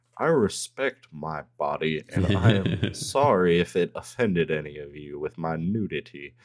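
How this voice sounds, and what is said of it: Poor imitation of cartoon character's voice. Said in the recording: “I'm so sorry that my Hank Hill accent is that bad”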